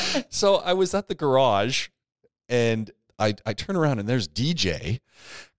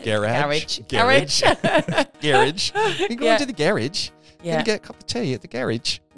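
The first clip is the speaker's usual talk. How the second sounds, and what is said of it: Bad put-on English accent. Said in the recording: “that's like the worst English accent ever”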